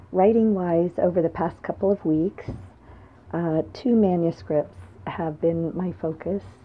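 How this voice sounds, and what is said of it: Slightly hoarse voice. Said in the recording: “You can probably hear that I'm a little hoarse”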